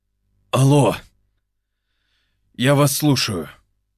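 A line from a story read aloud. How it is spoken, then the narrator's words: Hoarse, sleepy, drunken voice. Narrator (Russian): прохрипел он осипшим от сна и алкоголя голосом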